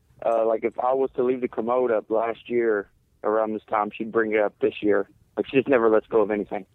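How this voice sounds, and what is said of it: Speaks with a distinctive accent. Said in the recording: “your accent is amazing”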